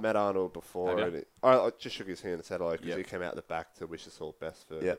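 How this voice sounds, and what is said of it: Usual voice. Nothing is said of it.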